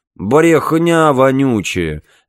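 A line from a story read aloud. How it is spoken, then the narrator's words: Lazy. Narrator (Russian): лениво сказал Билл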